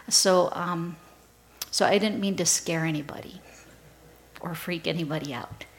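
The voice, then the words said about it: Strained, not fully recovered voice. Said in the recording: “my voice is still getting back to where it was... my throat just took a toll... my voice is not 100%”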